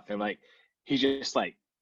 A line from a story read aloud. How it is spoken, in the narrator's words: he snaps